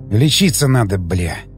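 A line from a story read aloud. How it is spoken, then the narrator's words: Frightened mutter. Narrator (Russian): пробормотал я, чувствуя, как со страху пробивает потом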